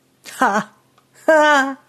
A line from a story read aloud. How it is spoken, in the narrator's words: His laughter caused ear damage